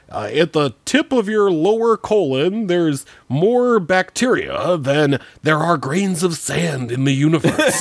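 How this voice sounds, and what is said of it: Poor imitation of another person's voice. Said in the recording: “That was also a terrible impression.”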